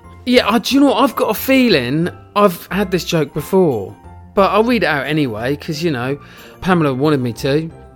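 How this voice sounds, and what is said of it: English accent. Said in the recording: “my fantastic English accent.”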